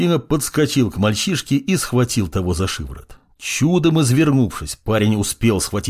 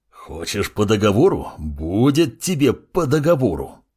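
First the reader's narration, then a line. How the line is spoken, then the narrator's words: Growling. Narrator (Russian): рычал он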